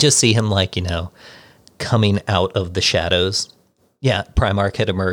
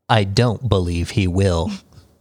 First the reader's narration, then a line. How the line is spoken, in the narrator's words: said Alpharius